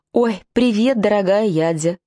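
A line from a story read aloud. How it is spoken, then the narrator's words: Shouted. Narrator (Russian): закричала Рита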